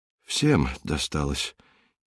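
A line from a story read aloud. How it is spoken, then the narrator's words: Quiet. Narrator (Russian): тихо сказал Северцев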